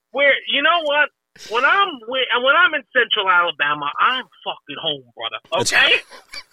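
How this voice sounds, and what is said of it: Alabama accent. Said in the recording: “your accent's a dead giveaway. Where exactly in Alabama did you grow up?”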